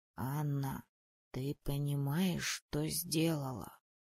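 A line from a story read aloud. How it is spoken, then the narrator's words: Very quiet. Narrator (Russian): поинтересовался он очень тихо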